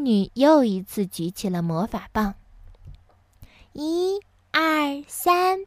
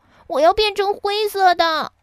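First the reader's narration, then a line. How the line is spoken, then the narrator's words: Shouting. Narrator (Chinese): 哈瓦尔叫道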